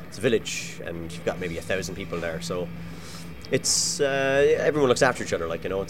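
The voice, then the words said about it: Mild Irish-influenced accent. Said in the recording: “my mother spoke with a Cork accent ... Mine wouldn't be terribly strong ... I had kind of a neutral accent that kind of developed in Ireland”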